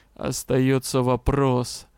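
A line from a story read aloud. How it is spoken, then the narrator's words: Gloomy. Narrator (Russian): мрачно произнес он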